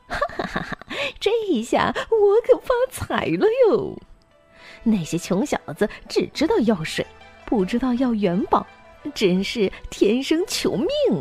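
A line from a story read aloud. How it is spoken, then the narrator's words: Gleeful laughing. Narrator (Chinese): 摊不够，笑得嘴都合不拢了，说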